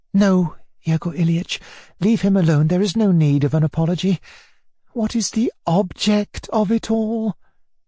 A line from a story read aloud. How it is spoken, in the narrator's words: she said in an imploring voice